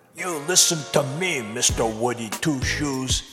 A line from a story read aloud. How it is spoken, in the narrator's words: spat